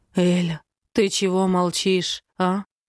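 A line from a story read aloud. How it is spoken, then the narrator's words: Hoarse question. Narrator (Russian): спрашивает хрипло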